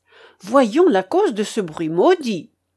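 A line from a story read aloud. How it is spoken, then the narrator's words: Cried out. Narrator (French): s'écria Front de Bœuf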